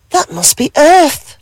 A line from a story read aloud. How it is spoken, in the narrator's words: she gasped with joy